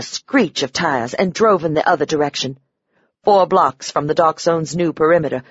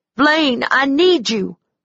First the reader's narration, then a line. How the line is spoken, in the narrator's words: I cried, releasing his name